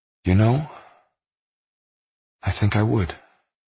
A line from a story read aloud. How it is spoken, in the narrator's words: she sighed